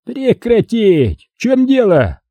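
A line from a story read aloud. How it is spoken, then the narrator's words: Yelled. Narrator (Russian): заорал Гусейнов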